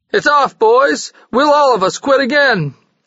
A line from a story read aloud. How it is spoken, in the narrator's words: the big butcher president yelled